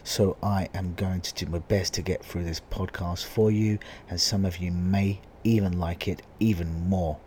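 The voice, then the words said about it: Husky, hoarse voice. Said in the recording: “my voice is even more huskier today. This is due to me losing my voice”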